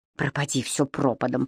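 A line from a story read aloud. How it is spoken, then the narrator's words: Whispered. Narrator (Russian): прошептал Кэмерон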